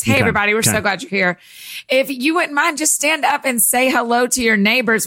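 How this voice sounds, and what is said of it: Preacher voice. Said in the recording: “I'll use my preacher voice.”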